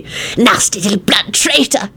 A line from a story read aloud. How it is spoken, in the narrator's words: he hissed